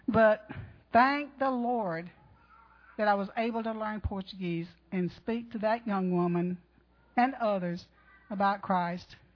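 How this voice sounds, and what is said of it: Southern US accent. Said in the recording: “I talk with a southern accent, and I cannot change that... I'm a Georgia girl, and it won't leave me.”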